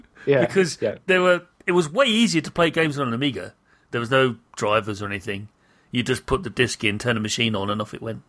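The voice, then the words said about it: British accent. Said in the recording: “I'm a British person. You might have noticed my accent.”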